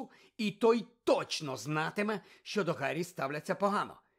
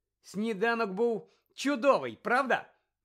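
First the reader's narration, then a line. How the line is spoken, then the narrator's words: Exclaimed. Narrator (Ukrainian): вигукнув Гаррі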